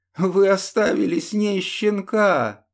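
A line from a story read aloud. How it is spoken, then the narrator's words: Tearful question. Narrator (Russian): сквозь слезы спросил он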